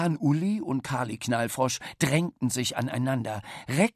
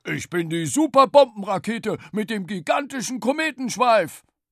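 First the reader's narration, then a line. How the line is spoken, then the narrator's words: Loud roar. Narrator (German): Bollermann brüllte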